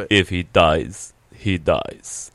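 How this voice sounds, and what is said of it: Poor put-on Russian accent. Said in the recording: “The only time I can summon a Russian accent is when I quote Ivan Drago from Rocky. ... It's a horrible. ... Horrible.”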